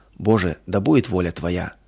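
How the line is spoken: Heartfelt whisper. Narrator (Russian): От всего сердца прошептала она

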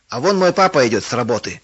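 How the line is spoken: Shouted. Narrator (Russian): крикнул Толик

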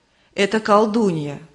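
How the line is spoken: Plain. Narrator (Russian): сказал дух мужества

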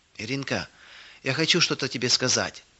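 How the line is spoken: Whispered. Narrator (Russian): прошептала она

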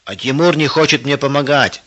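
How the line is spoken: Shouting. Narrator (Russian): закричал Женя

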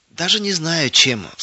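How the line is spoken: Sighing. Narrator (Russian): вздохнула соседка

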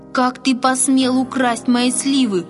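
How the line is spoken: Shouting, trembling with anger. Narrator (Russian): дрожа от гнева закричал он

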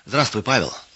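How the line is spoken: Plain. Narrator (Russian): сказал хозяин

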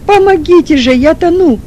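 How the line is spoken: Shout. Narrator (Russian): снова крикнул Чернов

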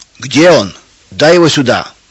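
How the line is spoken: Shout. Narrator (Russian): кричал Федор

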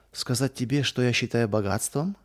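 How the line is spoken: Plain. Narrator (Russian): спросила мама

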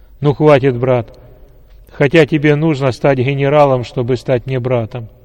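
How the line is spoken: Loud. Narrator (Russian): громко сказал генерал

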